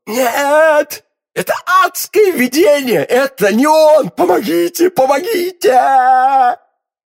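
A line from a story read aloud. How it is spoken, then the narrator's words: Hoarse scream. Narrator (Russian): Закричала она хриплым голосом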